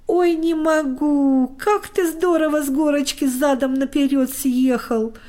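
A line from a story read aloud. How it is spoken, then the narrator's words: Laughing loudly. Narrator (Russian): хохотал Костик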